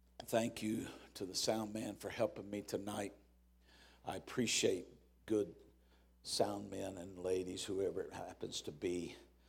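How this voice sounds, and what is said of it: Raspy, hoarse voice. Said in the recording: “I'm fairly raspy.”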